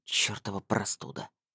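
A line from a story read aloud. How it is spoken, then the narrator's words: Displeased grumble. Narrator (Russian): недовольно пробурчал Блуд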